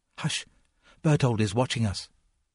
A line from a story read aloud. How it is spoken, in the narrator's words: Suddenly she interrupted herself, whispered